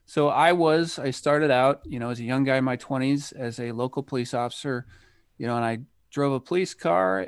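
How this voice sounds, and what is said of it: American accent. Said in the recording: “People can probably tell from my accent that I'm from the United States”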